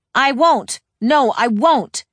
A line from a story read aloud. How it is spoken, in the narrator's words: storming in her room, shouting repeatedly